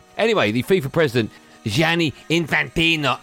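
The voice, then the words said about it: Put-on foreign accent. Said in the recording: “I don't know why I'm still doing that accent.”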